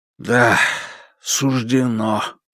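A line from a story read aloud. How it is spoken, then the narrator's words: Restrained mumble. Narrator (Russian): пробормотал Шао, стараясь не выдать своих эмоций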